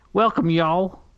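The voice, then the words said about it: Put-on Southern US accent. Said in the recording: “I gotta get my down south accent? ... That's my uh, American.”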